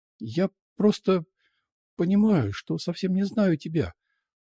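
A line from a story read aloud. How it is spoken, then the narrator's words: Sobbing. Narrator (Russian): всхлипнула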